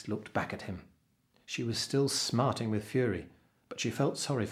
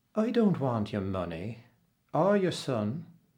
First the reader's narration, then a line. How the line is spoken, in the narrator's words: she replied slowly